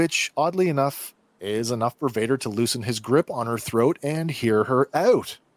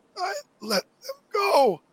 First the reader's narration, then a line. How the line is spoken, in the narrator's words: Struggling under Vader's grip, Reva manages to squeak out the words